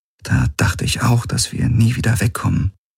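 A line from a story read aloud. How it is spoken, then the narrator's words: Quiet. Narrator (German): sagte leise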